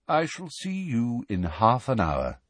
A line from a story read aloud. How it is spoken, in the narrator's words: said Dumbledore quietly